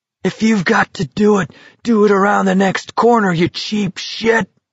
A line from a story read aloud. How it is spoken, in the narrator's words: McVries cried